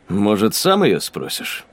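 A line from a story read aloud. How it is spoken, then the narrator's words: Wry snort. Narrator (Russian): хмыкнул Ксейден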